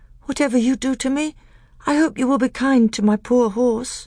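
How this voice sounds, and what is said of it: Feeble, weak voice. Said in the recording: “in a feeble voice”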